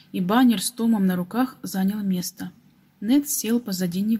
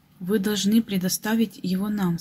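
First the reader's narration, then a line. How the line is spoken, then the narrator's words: Plain. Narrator (Russian): сказала она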